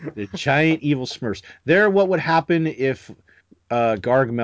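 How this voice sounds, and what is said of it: Usual voice. Nothing is said of it.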